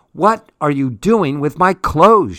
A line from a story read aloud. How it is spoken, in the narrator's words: She shouts